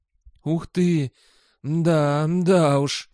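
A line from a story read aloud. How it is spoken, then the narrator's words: Hoarse mumbling. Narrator (Russian): сипло бормотал Сол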